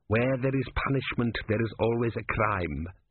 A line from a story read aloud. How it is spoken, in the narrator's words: said Vorbis